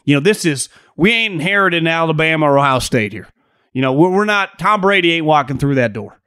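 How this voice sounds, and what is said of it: Put-on Southern accent. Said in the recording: “I just like mixing in a southern accent every once in a while.”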